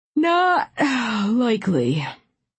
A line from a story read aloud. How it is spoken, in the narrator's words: he said sleepily